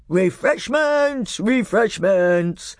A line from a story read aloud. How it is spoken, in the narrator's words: roared the old man